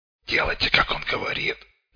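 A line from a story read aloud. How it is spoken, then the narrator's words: Hoarse marauder's rasp. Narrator (Russian): прохрипел мародер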